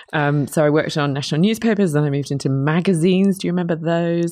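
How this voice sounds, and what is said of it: British accent. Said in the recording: “I'm a Brit, you might tell from my accent.”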